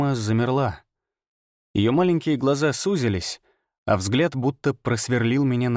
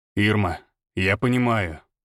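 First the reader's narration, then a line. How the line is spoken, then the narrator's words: Cold. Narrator (Russian): сказал он холодно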